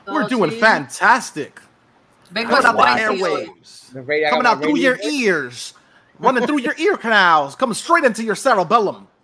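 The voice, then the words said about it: Animated radio announcer voice. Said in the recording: “Sound like a fucking one of those radio fucking channels ... you sound like a radio ... I have to be more animated ... be more animated vocally”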